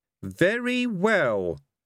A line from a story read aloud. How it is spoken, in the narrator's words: said one of the objectors haughtily